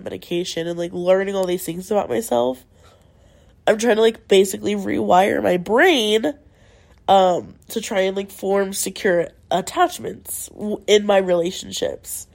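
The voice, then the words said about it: Stuffy nose, voice fading. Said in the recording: “my nose is very stuffy right now. And if you can't hear, my voice is going...”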